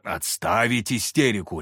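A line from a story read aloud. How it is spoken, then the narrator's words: Barked. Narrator (Russian): рявкнул я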